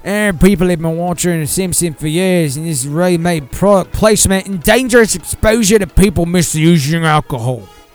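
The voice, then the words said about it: Put-on Australian accent. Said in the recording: “this would be an Australian accent”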